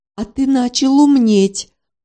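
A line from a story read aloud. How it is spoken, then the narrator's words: Satisfied smirk. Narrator (Russian): удовлетворенно ухмыльнулся бобер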